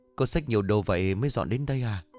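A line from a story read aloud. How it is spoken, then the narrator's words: Embarrassed stammer. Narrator (Vietnamese): Dũng lập tức đỏ mặt rồi lắp bắp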